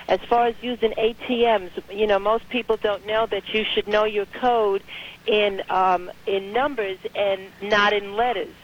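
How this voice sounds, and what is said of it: New York accent. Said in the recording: “you have this distinctive New York accent”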